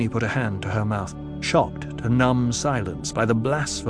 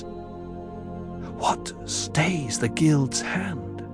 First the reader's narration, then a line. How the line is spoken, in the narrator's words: Jessica whispered